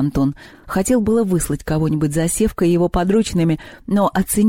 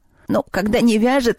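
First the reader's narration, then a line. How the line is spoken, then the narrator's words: Giggle. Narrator (Russian): хихикнул кладовой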